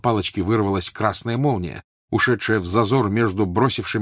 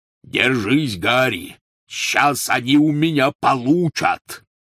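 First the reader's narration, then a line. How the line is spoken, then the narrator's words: Growling. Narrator (Russian): рычал Хагрид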